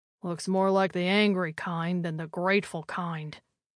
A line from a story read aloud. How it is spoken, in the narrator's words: Gonzalez muttered